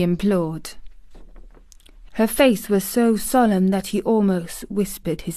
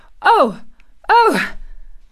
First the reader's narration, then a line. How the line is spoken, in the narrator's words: Colin cried out in delight